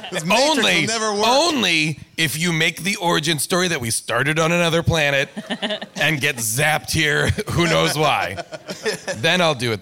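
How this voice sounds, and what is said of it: Imitates another person's voice. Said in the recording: “my Sean Connery impression... It was great.... I think it's pretty good.”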